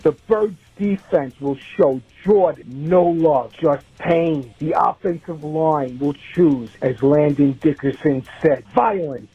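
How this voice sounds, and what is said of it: New York accent. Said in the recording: “He's got a New York accent, that guy”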